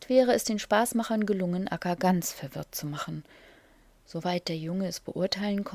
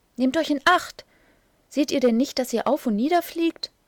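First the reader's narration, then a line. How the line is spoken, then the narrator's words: Calling while rushing past. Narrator (German): rief eine Lumme, indem sie vorüberbrauste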